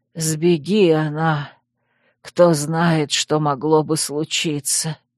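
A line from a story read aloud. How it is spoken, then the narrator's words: Muffled, hollow. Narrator (Russian): глухо проговорила Маар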